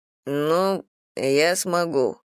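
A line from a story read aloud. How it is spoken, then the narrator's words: Mumbling. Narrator (Russian): пробормотал Стив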